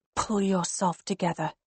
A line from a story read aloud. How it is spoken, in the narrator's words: I hiss